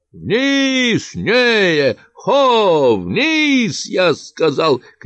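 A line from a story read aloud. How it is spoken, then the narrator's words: Shouting voice from above. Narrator (Russian): кричал голос над нами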